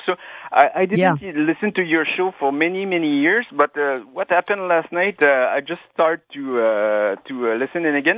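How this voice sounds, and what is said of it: Quebec French accent in English. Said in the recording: “my French accent. I'm from Quebec.”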